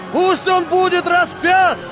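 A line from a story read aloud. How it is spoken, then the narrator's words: Crowd shouting ever louder. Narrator (Russian): толпа кричала все громче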